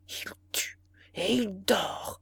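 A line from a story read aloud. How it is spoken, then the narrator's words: Murmur. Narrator (French): murmura le ministre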